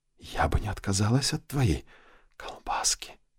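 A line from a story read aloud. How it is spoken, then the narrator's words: Breathy whisper. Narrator (Russian): с придыханием прошептала блондинка в ухо Винсенту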